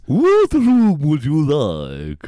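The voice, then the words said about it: Creepy Transylvanian-style accent. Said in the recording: “you're the creepy receptionist ... I love the accent ... Like Transylvanian.”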